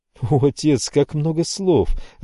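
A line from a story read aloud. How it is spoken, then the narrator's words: Laughing, humorous mimicry. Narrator (Russian): рассмеялась Алиса, юмористически повторяя фразу венецианца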